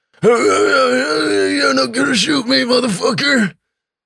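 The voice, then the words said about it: Hoarse voice imitating a neighbor. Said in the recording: “hoarse-voiced neighbor ... what does he sound like?”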